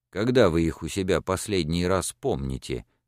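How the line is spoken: Plain question. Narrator (Russian): спросил фон Ашенберг

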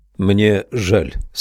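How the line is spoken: Plain. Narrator (Russian): сказал я

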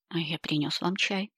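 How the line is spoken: Gentle teasing. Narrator (Russian): повторил герцог и мягко подразнил

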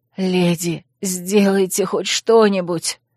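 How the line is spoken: Hoarse plea. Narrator (Russian): хрипло попросила оборотница

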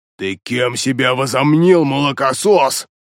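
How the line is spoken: Angry growl. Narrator (Russian): злобно прорычал он

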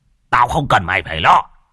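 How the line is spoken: Old man shouting. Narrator (Vietnamese): Lão quát

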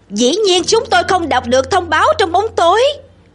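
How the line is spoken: Shouting back. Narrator (Vietnamese): Sam hét trả

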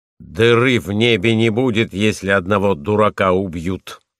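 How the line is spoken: Angry reply. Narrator (Russian): сердитым голосом отвечал Войтек

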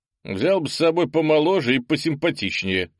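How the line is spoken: Smirking. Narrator (Russian): хмыкнул землянин

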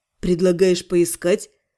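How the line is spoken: Skeptical grunt. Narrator (Russian): хмыкнул Аскани

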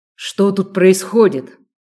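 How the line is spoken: Sharp bark. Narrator (Russian): рявкнул Хантер

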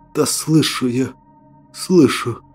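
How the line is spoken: Weak exhausted whisper. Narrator (Russian): прошептал, на большие силы уже не хватало

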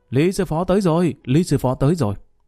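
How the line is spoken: Astonished exclamation. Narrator (Vietnamese): Lý Kỳ không khỏi kinh ngạc kêu lên thành tiếng

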